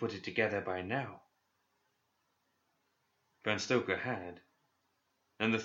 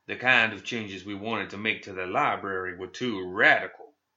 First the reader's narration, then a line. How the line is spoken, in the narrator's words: said Lynch